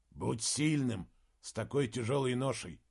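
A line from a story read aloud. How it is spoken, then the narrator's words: Quiet. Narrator (Russian): тихо сказал Моргенес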